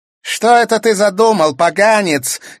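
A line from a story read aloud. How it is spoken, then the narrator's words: Shouted from above. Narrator (Russian): крикнула сверху Клементина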